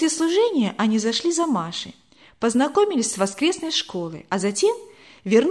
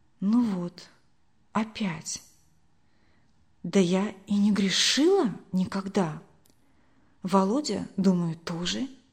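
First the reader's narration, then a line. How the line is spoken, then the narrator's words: Whisper. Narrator (Russian): прошептала она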